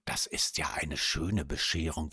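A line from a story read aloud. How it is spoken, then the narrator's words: Whispered. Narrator (German): flüsterte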